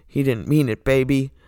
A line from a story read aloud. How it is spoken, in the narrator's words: Dean then turns to the Impala and grumbles